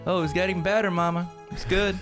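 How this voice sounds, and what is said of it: Put-on Southern accent with twang. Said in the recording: “the southern one ... Try to start adding a little more twang ... the inflection ... It's getting better.”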